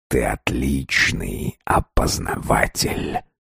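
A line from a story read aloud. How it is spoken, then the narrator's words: Quiet. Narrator (Russian): негромко сказал он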